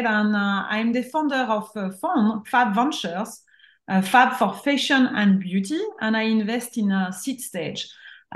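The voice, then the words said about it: French accent. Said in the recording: “I'm French, as you can see my accent”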